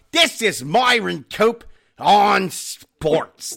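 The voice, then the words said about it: Imitates thick Pittsburgh accent. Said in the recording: “he had the thickest Pittsburgh accent you've ever heard in your life”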